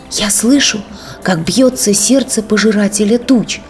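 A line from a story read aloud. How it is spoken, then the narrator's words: Whisper. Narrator (Russian): прошептала Хаюта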